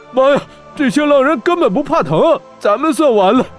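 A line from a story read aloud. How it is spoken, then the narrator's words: Agonized scream. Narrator (Chinese): 大漠金蝎 惨叫道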